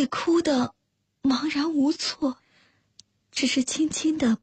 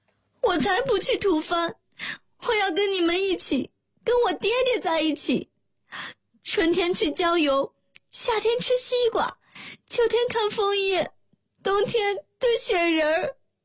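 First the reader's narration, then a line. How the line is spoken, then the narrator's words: Wailing, crying out. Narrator (Chinese): 洛洛忽然哇的一声哭了出来，叫道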